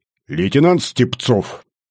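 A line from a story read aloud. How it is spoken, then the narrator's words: Quiet bark, commander. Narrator (Russian): негромко рявкнул комбат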